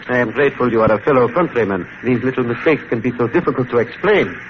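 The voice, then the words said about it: Foreign accent in English. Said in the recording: “I am a naturalized American all these many years, but the accent remains.”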